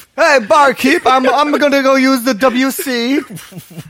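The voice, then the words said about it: Odd old-timey put-on accent. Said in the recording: “What accent is that? ... Wait, what is it, 1734? ... That's not even like Southern California.”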